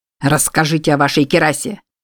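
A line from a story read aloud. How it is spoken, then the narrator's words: Barking. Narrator (Russian): рявкнул Джордж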